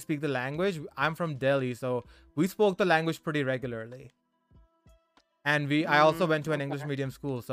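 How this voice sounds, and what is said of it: Mild Indian-Canadian accent with lisp. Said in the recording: “it's not the stereotypical accent ... It's not as prominent. It's like a mix of Indian and Canadian accent ... I have a lisp ... my lisp is so freaking prominent”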